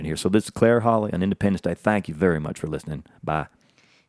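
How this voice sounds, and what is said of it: Put-on Southern accent. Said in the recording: “doing the Southern accent”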